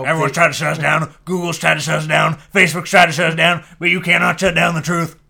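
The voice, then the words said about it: Imitates another person's voice. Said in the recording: “do an Alex Jones impression ... the first time I've ever attempted like, an Alex like, Jones impression”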